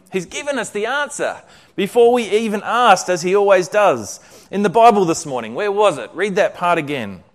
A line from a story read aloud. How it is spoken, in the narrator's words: Betsy exclaimed excitedly